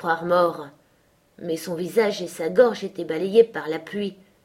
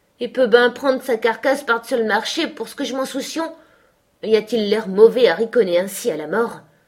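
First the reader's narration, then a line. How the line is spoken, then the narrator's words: Old fisherman sneering laugh. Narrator (French): Et le vieux pêcheur ricana par dérision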